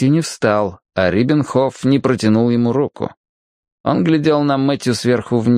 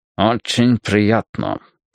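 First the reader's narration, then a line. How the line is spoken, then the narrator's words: Through closed lips. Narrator (Russian): процедил Риббенхоф с явно отточенным мастерством разговаривать, не размыкая губ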